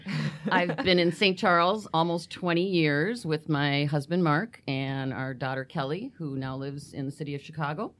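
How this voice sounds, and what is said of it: Northern Wisconsin accent. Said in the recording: “I am originally from northern Wisconsin, as you can probably tell from my accent.”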